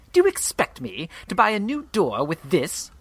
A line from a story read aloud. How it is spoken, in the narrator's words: Partridge spat